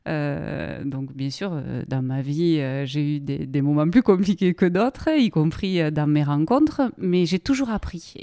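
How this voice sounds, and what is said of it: Strong regional French accent. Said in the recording (French): “Et avec un accent magnifique. ... il paraît qu'on se fait un peu concurrence sur l'accent parce que des fois elle l'a plus fort que le mien et moi je l'ai plus fort qu'elle de temps en temps.”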